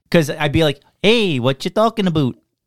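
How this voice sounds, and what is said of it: Put-on Canadian accent. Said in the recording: “stupid Canadian accent ... it's almost like he wishes he could do accents like me”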